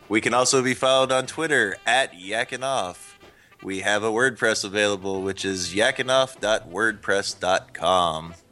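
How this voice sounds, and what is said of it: Game-show announcer voice, like Rod Roddy. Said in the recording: “I get to put on my announcer voice. ... who was the announcer from Price is Right? ... Roddy? ... you sound like him.”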